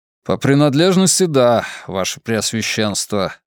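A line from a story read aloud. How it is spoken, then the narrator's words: Gloomy admission. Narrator (Russian): мрачно признал Уолмак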